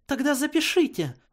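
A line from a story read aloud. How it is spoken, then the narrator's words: Exclaiming. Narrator (Russian): воскликнула Твайлайт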